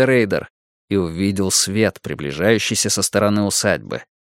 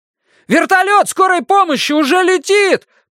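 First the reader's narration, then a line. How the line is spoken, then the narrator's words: Shouted. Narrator (Russian): прокричал Давид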